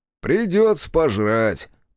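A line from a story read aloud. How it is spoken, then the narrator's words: Grumbling. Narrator (Russian): проворчал Бучило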